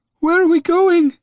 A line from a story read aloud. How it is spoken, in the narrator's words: he cried